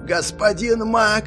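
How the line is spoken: Shouting. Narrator (Russian): заорал

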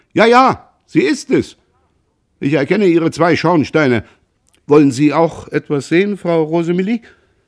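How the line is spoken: Delighted call. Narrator (German): Der Vater rief erfreut

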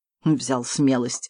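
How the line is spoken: Smirking, less wary. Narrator (Russian): хмыкнул собеседник, однако в голосе его было куда меньше настороженности, чем прежде

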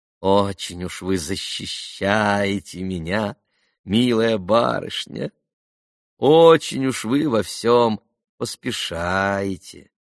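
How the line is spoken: Drawled. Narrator (Russian): протянула опять Грушенька

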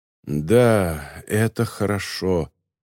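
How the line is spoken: Doctor muttering. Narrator (Russian): пробормотал доктор Бергост

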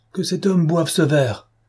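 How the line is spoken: Exclaiming. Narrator (French): s'écria Madame de Langeais

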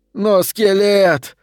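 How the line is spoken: Inner shout. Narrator (Russian): крикнуло его подсознание

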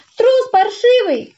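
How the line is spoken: Tearful shout. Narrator (Russian): крикнула она плачущим голосом

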